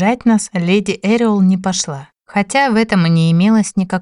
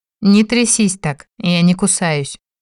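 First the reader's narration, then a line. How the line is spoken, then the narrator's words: Mocking. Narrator (Russian): насмешливо бросил принц Димари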